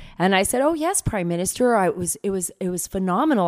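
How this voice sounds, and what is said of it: Usual voice. Nothing is said of it.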